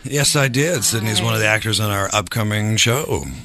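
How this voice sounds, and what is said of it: Raspy morning voice. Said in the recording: “My raspy voice. Morning voice. It's all the time.”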